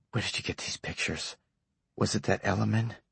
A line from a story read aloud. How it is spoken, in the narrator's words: Gendron whispered